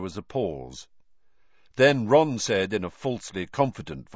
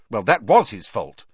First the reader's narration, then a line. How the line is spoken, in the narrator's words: said Hermione testily